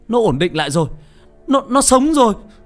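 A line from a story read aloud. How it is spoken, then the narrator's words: Exclaim. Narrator (Vietnamese): Một bác sĩ kêu lên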